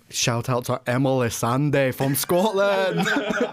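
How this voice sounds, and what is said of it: Put-on Scottish accent. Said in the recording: “I wasn't expecting that accent to come back out again.”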